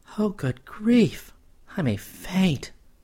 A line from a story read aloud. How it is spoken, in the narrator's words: gasped Spice in a sudden girlish reaction